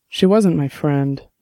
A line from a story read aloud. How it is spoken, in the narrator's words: Dex said sadly